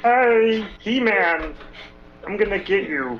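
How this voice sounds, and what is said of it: Cartoon villain character voice. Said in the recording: “I did the voice of Skeletor.”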